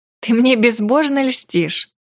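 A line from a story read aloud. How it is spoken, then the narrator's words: Laughing. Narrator (Russian): рассмеялась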